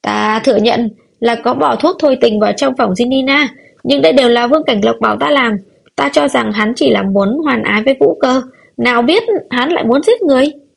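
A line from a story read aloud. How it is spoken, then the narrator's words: Shrill scream. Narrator (Vietnamese): Lỗ trưởng quỹ thét lên chói tai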